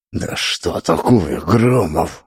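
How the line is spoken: Hushed hiss. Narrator (Russian): зашипел, понизив голос, чтобы не слышали патрульные

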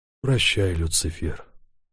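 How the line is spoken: Whispered. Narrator (Russian): шепнул

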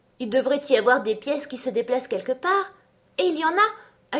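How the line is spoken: Delighted, excited. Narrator (French): ajouta-t-elle d'un ton ravi, tandis que son cœur se mettait à battre plus vite

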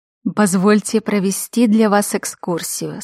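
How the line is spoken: Plain. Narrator (Russian): сказал он

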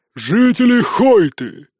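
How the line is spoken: Booming bark. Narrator (Russian): зычным голосом рявкнул он

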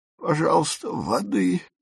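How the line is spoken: Hoarse croak. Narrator (Russian): прохрипела фрау Фишер с земли

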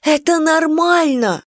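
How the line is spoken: Exclaiming. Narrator (Russian): воскликнула Настя

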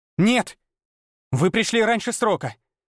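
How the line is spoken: Furious shouting. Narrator (Russian): кричала Ольга, и в ее голосе слышалась не мольба, а ярость

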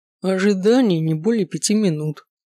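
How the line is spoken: Gloomy reply. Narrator (Russian): мрачно отозвался кэбман

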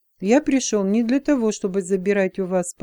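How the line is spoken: Calm. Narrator (Russian): спокойно ответил он

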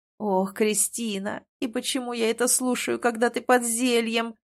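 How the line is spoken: Groaning. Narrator (Russian): простонал он

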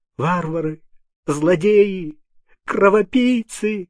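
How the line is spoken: Sobbing shout. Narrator (Russian): кричала, всхлипывая, сенная девушка

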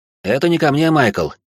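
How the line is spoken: Snort. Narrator (Russian): хмыкнул тот

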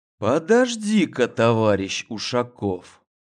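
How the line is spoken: Quiet, meaningful tone. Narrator (Russian): Негромко и с особой интонацией произнес

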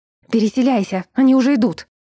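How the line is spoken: Sharp urgent shout. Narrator (Russian): прикрикнула на него сообщница

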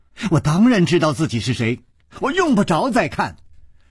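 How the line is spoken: Angry girl. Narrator (Chinese): 这个少女怒道

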